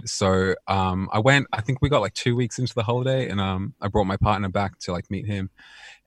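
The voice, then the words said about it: Mild mixed South African accent. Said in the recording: “You don't have like a super strong South African accent. Yeah, I have a really kind of weird mixed up accent”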